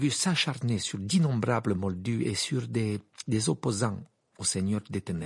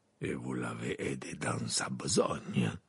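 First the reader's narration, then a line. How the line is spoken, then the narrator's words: Murmured. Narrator (French): murmura Maugrey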